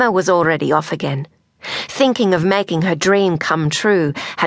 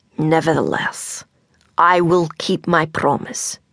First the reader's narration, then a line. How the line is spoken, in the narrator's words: Grandma said